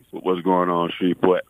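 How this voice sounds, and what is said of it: Deep, low, sultry voice. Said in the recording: “sexy voice ... Dropped a couple octaves”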